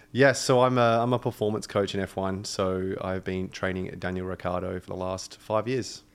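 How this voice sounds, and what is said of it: Australian accent. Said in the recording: “So cool hearing that accent ... You guys are both Australian”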